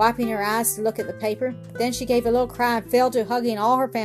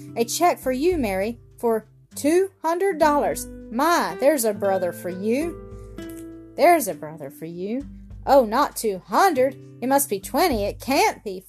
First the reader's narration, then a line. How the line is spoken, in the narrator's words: faltered Mrs